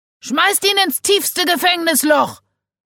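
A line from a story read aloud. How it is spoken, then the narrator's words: Shout from the crowd. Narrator (German): schrie jemand aus der Menschenmenge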